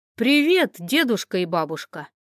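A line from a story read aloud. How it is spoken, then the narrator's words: Exclamation. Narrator (Russian): воскликнул Матвей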